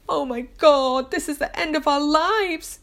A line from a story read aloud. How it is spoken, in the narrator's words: wails my husband